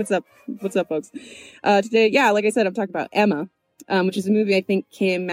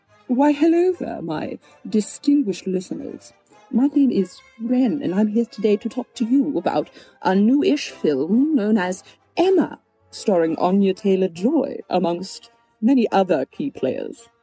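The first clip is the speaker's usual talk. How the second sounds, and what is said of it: Put-on accent. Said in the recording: “Okay, I'm done with that accent.”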